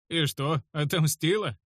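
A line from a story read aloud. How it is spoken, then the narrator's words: Mocking smirk. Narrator (Russian): усмехнулся я насмешливо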